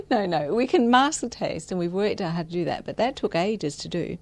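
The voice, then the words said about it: Australian accent. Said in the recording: “from your accent, clearly you come from Australia”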